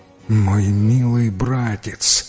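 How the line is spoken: Moaning. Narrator (Russian): простонал хитрец

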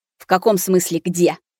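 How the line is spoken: Growled. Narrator (Russian): прорычал Семён

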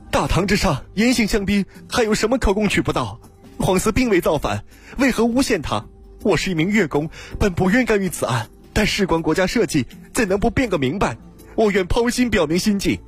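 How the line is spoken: Loud shout. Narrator (Chinese): 一个人 大声叫道

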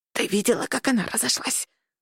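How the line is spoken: Conspiratorial old woman's whisper. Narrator (Russian): заговорщически прошептала бабуля Фрида

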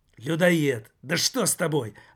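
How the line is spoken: Exclaiming again. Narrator (Russian): опять воскликнул Жак

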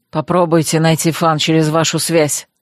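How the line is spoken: Grumble. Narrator (Russian): проворчал

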